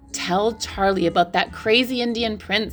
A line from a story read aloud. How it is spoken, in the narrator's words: said Grandma Josephine